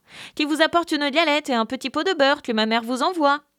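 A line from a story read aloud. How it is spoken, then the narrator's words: Unwell old woman calling. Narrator (French): La bonne mère Grand, qui était dans son lit à cause qu'elle se trouvait un peu mal, lui cria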